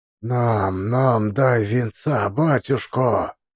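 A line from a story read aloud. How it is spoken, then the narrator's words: Bearded men whispering. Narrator (Russian): зашептали бороды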